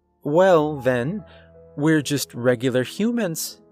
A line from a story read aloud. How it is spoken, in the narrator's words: Laura chuckled awkwardly